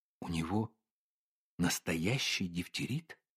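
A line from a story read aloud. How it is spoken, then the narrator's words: Whispered question. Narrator (Russian): спросила шепотом Ольга Ивановна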